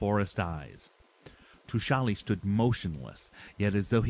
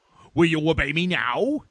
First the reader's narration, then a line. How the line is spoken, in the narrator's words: He shouted